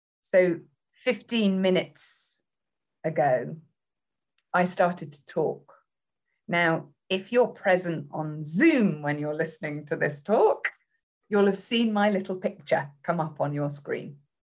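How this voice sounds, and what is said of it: British accent. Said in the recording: “you'll have heard my voice, my accent ... you probably will have labeled me female, British.”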